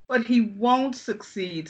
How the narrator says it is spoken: sobbed Narcissa

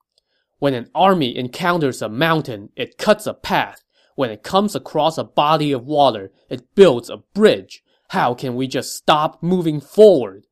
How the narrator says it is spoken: said angrily

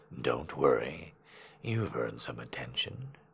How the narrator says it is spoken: he said almost softly

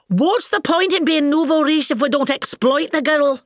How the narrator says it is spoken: she used to shout at poor Daddy when he pleaded with her

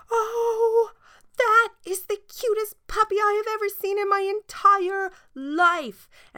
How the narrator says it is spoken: a little girl saw him and she screamed

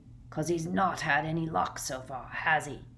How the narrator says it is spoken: growled Moody

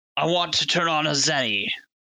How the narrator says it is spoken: Izo yelled over the howling wind

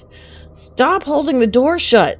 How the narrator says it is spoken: youth pastor yelled

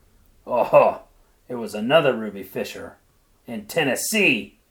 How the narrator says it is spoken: cried her husband

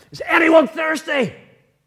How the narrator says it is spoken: he shouted at the top of his voice

